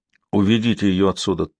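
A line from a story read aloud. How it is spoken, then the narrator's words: Dull, flat voice. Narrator (Russian): тусклым голосом ответил Стахор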